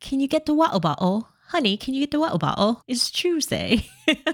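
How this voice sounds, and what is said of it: Put-on British accent. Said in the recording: “And which British accent is that?”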